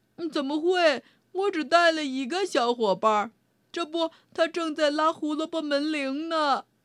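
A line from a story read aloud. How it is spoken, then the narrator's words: Hooting. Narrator (Chinese): 猫头鹰呜呜叫道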